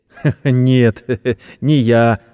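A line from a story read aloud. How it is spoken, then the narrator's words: Laughing. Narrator (Russian): засмеялся Сэм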